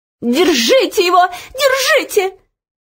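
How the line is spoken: Shrill scream. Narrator (Russian): визгливо закричала ей вслед Анидак

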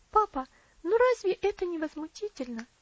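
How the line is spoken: Indignant exclamation. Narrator (Russian): воскликнула Элси

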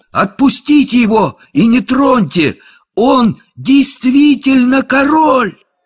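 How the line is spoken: Ringing shout. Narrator (Russian): Том Кенти звонким голосом крикнул

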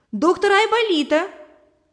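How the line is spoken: Shouted. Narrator (Russian): крикнул Валерка

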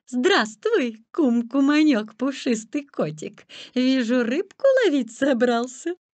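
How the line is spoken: Sweet honeyed voice. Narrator (Russian): лиса говорит медовым голоском

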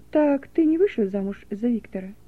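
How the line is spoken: Sad, sudden question. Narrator (Russian): ответил он печально и внезапно спросил

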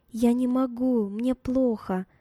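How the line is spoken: Trembling voice. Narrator (Russian): дрожащим голосом проговорила

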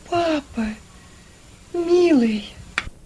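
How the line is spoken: Barely audible, weak. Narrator (Russian): Чуть слышно сказала она

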